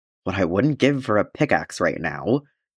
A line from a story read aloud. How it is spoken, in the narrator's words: he murmured absently